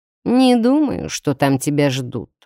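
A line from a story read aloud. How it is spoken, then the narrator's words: Scoffing. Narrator (Russian): хмыкнул Карл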